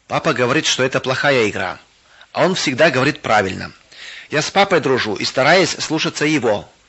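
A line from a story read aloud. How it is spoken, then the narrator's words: Calm reply. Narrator (Russian): спокойно ответил Виктор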